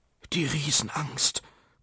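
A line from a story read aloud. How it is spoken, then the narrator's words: Frightened gasp. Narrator (German): keuchte er erschrocken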